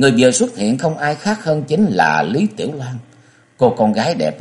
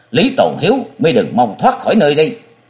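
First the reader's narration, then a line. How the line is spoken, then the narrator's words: Young woman shouting. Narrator (Vietnamese): một cô gái tuổi còn đôi mươi, thất vọng thanh thao hét lên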